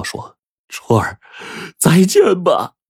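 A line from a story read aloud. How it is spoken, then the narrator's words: Crying. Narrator (Chinese): 胡建就哭道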